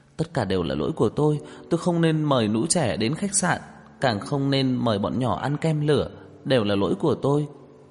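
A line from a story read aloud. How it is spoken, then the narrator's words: Frightened, trembling, tearful. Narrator (Vietnamese): cả người sợ hãi run rẩy, lại kích động rơi lệ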